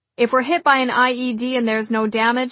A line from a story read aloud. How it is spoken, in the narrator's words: he said